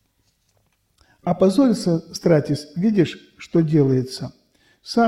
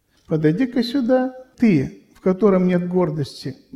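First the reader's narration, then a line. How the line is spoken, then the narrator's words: Plain. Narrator (Russian): говорит святой Косма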